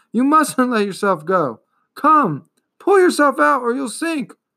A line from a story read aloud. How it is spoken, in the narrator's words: cried Atreyu